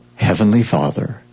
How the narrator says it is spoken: he whispered

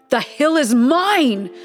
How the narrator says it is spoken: cried the eldest

